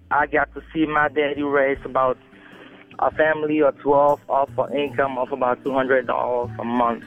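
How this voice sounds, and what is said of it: Cameroonian West African accent. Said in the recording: “if you can tell from my accent, I'm not originally from around here. I grew up in Cameroon, West Africa.”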